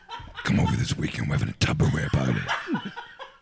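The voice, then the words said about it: Imitation of a smoker's voice. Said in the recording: “That's me imitating my mother-in-law's voice ... She smokes a lot, so she has a nice voice.”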